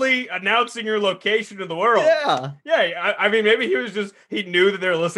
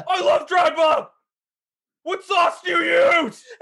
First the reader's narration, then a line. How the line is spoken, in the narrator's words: he can't go around just yelling